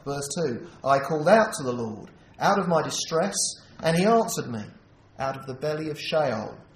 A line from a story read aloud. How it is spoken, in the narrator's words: I cried